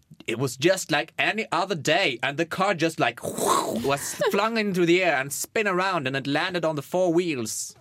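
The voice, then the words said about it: English with put-on Berlin accent. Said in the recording (Norwegian): “Med berlin berlindialekt.”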